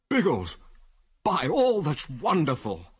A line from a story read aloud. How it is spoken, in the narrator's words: cried Wilkes enthusiastically